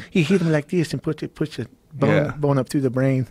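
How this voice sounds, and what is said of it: Bad Mike Tyson impression. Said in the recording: “worst Mike Tyson impression I've ever heard”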